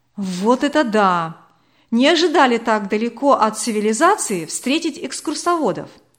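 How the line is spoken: Exclaimed. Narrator (Russian): воскликнул Владимир

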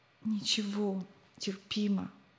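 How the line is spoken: Quiet reply. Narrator (Russian): тихо ответил тот

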